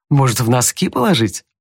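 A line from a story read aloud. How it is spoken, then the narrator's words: Said with a smile. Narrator (Russian): улыбнувшись, сказал Том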